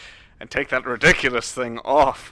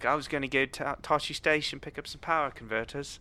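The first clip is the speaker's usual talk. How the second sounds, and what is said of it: Tom Holland's British accent. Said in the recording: “Doing his American accent? Oh, he's British. His British accent. ... why are you talking like that?”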